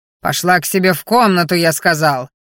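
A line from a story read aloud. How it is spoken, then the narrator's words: Roaring. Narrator (Russian): Взревел он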